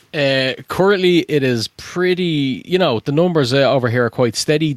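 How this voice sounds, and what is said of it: Irish accent. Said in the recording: “you might be able to tell from the accent. What's it like in Ireland?”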